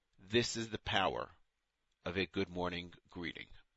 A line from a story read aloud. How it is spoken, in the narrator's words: The rabbi, now in his 80s, told me in his gentle voice